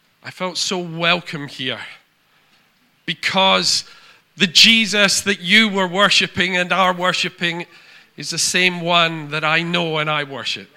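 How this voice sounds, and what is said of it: Foreign accent. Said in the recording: “as one who comes from a different land, you can probably tell that from my voice”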